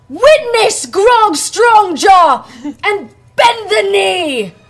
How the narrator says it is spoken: gonna shout

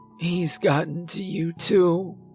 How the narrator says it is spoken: she whimpered softly

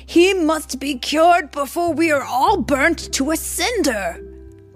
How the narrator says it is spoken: they cried

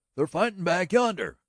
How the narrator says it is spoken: cried the boy wildly, his eyes shining with his excitement

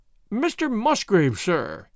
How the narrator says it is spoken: he cried, in a voice which was hoarse with emotion

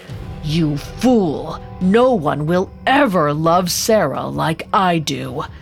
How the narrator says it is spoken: Asmodeus rasped

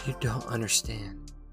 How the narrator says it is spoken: she said quietly

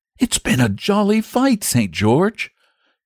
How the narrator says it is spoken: he said with a sigh

